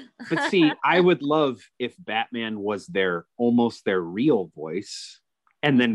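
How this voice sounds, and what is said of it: Usual voice. Nothing is said of it.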